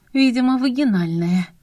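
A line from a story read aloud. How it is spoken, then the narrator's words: Sighing. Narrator (Russian): вздохнула я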